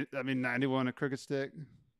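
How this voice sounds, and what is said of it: Imitates another person's voice. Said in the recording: “That's my best Scott impression. I don't know how to do better.”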